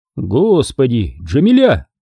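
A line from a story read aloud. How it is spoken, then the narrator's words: Exclamation. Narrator (Russian): воскликнул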